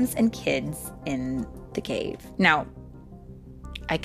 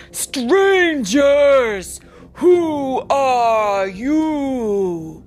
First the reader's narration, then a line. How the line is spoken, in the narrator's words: he asked in his great, rumbling voice